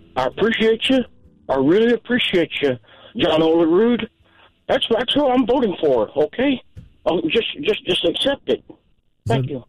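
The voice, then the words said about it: Imitates another person's voice. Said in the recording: “Is that a Norm impersonation? I guess so.”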